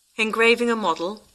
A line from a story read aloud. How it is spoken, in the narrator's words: I asked